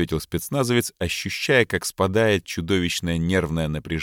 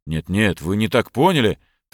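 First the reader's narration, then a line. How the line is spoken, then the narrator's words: Hurried mumbling. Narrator (Russian): торопливо забормотал Борман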